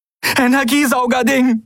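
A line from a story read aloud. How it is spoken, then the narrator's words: Breathless reply. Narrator (German): gab Andriel atemlos zurück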